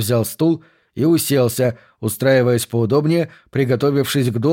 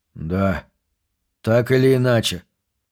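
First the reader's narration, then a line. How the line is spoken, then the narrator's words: Sighing. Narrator (Russian): вздохнул Уайзман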